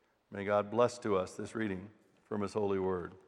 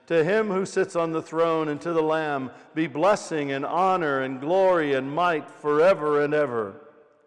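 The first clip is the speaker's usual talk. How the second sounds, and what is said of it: Big booming God voice. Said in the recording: “get in my big God voice.”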